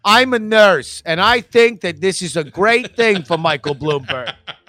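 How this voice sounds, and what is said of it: Thick Staten Island accent. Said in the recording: “thick ass Staten Island accent”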